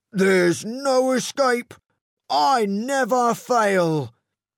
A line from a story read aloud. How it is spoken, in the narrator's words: cried Snatcher